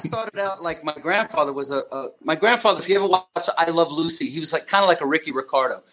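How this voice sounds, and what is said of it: Long Island New York accent. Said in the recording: “you're a New Yorker, Long Island. I mean, the accent is there.”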